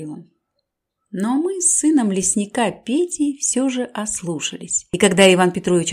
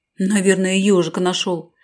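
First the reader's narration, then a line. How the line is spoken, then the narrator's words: Shout. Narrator (Russian): крикнул мне Петя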